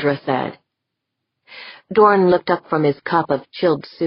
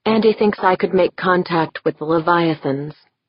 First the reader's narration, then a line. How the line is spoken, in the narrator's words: she said